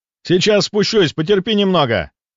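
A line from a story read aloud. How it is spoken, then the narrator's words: Shouting. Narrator (Russian): прокричал он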